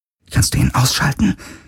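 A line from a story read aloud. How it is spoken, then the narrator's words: Whispering. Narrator (German): flüsterte Kirai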